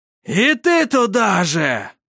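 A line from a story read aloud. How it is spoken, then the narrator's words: Triumphant shout. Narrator (Russian): прокричал он, торжествуя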